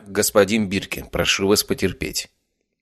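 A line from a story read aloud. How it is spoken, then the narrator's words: Cold. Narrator (Russian): Холодно произнес я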